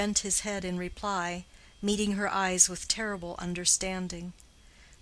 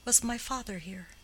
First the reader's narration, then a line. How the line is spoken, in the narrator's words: whispered